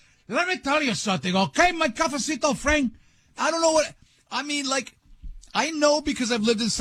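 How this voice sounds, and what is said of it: Usual voice. Nothing is said of it.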